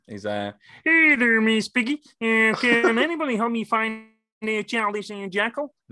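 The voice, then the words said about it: Kermit the Frog character voice. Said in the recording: “Only one I can do that I know I can still do is Kermit the Frog.”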